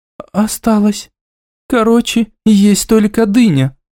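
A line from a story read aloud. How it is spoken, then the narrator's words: Sad sighing statement. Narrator (Russian): констатировала Аймара, печально вздохнув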